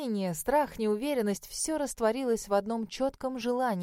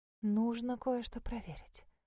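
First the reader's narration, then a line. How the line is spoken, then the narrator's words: Whisper. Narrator (Russian): прошептала я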